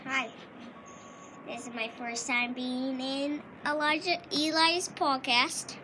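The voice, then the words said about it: Fake put-on accent. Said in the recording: “Stop acting like you have an accent.”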